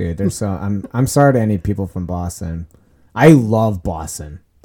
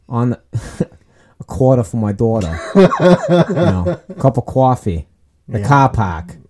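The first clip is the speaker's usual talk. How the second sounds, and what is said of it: Attempted Boston accent. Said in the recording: “I was going to try to do like a Mark Wahlberg accent ... I can't do a Boston accent.”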